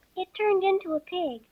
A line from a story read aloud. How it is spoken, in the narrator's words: Alice answered very quietly, just as if the cat had come back in a natural way